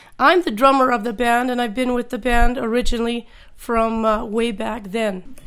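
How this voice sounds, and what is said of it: Congested voice from a cold. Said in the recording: “I have a cold tonight”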